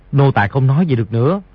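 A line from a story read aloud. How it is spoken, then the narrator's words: Lowered voice. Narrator (Vietnamese): hạ giọng nói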